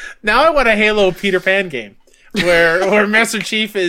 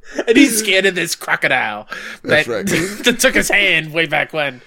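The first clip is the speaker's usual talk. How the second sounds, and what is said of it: Bad put-on Brooklyn accent. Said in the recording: “Why do you have a Brooklyn accent? And it's terrible, by the way.”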